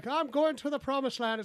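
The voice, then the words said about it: Irish-accented cartoon potato voice. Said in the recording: “the potatoes like ... It's got an Irish accent”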